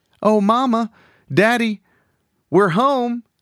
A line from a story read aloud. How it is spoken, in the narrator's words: she called out